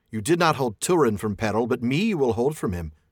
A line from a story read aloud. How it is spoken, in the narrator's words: cried Morwen